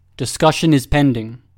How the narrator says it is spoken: Papa said firmly

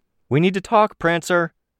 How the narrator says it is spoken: called out

